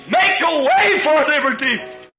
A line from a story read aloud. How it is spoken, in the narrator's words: screamed